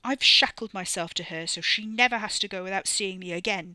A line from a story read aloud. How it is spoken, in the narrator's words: Wes snapped, a voice deepened in his indignation